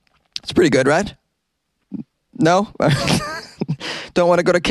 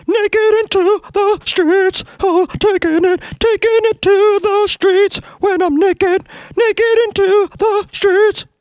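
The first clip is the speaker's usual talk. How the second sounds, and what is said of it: Sung imitation of another person's voice. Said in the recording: “my Michael McDonald impression”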